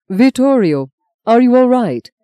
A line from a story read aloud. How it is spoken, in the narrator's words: Cardinal Rafe asked anxiously